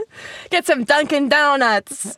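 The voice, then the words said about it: Attempted Boston accent. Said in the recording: “That was supposed to be a Boston accent?”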